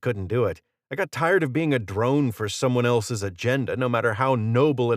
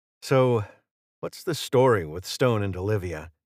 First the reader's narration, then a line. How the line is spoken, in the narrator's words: he asked